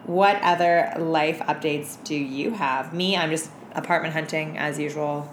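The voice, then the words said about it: Unusually deep, strained voice. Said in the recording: “my voice is so much more aggressively deeper than usual now ... it's, like, fluctuating over the day ... I think I fucked it up ... Screaming in the club”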